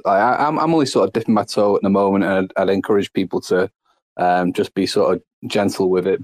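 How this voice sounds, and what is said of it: Speaks with a noticeable accent. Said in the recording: “I love that accent. ... Oh, that accent's sexy”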